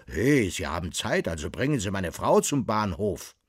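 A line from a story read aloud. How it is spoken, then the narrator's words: Calling after. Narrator (German): rief nach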